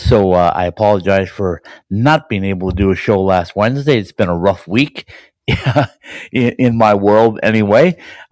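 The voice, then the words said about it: Voice affected by a cold. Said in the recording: “You can still hear the cold in my voice,”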